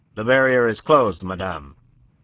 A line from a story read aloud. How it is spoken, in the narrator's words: curtly informed